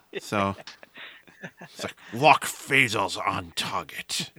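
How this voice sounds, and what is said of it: Bad Sean Connery impression. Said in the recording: “I did a terrible impression of Sean Connery”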